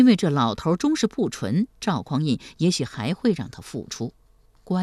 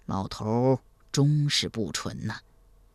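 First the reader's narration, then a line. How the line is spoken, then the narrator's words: Soft sigh. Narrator (Chinese): 赵匡胤轻声叹道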